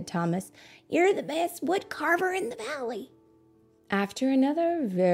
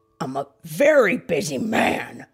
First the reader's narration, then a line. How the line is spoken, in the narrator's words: grumbled the woodcarver